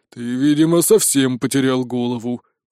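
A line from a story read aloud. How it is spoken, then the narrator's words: Dragon's growl. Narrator (Russian): прорычал дракон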